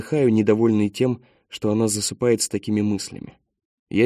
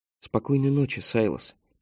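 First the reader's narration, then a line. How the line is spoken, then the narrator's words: Quiet. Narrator (Russian): тихо произносит она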